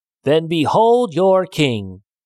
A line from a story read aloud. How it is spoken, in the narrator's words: The man was so annoyed with the silly frogs that he shouted